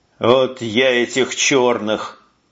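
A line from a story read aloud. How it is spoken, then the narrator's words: Sergeant grumbling. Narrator (Russian): бурчал сержант Куницын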